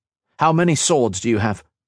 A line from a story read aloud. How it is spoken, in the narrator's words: he asked